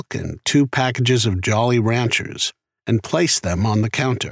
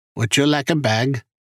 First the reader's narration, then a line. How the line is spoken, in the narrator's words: The Hispanic clerk repeated in his heavy accent